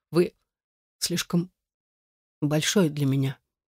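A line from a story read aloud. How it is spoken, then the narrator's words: Frightened, forced-out words. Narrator (Russian): испуганный выдавила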